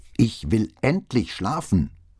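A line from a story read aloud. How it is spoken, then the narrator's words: Angry bellow from above. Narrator (German): Eine weitere wütende Stimme brüllte herunter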